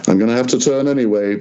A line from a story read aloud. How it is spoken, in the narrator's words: Gizemba said